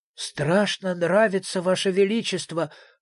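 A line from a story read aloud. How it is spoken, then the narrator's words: Breathless exhale. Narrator (Russian): выдохнул из себя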